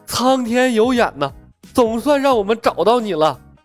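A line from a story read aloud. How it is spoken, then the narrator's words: Choked, tearful. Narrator (Chinese): 苗壮的眼泪也说来就来 哽咽说道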